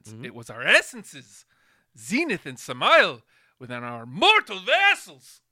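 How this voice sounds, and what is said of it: Speaks in a put-on character voice. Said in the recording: “I'm not doing the accent right... I kind of like what you're doing there... your spin on the character”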